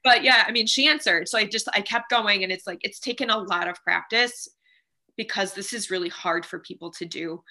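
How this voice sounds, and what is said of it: Raspy voice, holding back tears. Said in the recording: “I know my voice sounds really raspy. It's because I'm trying not to cry.”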